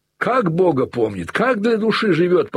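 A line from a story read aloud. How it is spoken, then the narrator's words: Near outcry. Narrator (Russian): почти вскрикнул Левин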